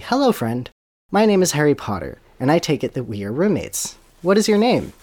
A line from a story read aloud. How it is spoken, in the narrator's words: Harry felt a horror, but he quickly composed himself and declared bravely